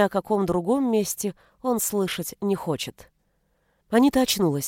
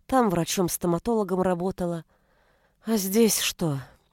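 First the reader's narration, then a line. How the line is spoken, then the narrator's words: Long-suffering sigh. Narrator (Russian): Галя мученически вздохнула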